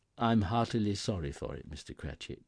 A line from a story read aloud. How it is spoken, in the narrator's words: said